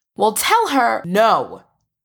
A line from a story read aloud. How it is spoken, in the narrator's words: Charles says firmly